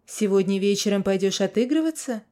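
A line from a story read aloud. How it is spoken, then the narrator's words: Plain. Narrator (Russian): спросил я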